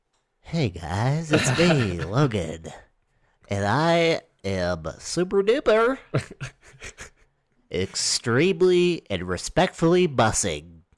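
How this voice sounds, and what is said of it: Imitates another person's voice. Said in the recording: “I can do a good ... impression”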